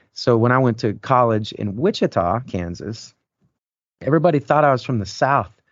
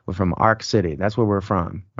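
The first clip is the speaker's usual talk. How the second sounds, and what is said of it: Raw country Oklahoma-border accent. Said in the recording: “in the Oklahoma border, I'm going to do it right now. You can kind of hear this is how we talk. We had a low tongue and we talk like this. And it was very raw, like there's a little country accent.”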